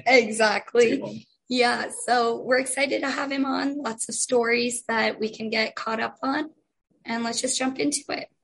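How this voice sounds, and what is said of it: Hoarse, nearly lost voice. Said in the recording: “As you can tell, I have lost my voice”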